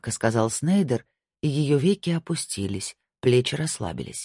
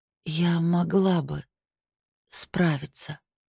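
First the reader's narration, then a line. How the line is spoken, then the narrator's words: Slow quiet speech. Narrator (Russian): медленно и тихо проговорила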